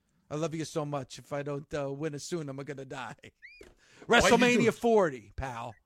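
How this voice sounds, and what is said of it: Put-on Italian accent impersonation. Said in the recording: “doing an Italian impersonation”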